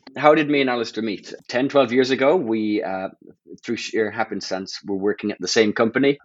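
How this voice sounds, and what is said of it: Nasal half-Irish accent. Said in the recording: “I'm the one with the slightly annoying, nasally, half-Irish accent”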